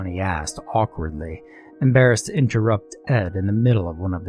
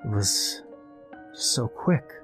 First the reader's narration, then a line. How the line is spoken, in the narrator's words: murmured Ed